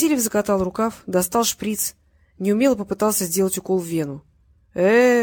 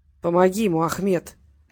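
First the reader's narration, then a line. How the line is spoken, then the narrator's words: Pained words through teeth. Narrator (Russian): морщись процедил Муса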